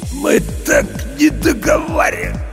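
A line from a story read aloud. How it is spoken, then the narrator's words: Hoarse voice. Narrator (Russian): прохрипел Серега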